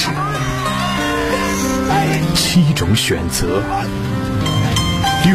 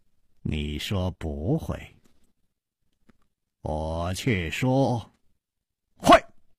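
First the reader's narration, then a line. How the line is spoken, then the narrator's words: Slow smile. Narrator (Chinese): 楚留香缓缓地笑了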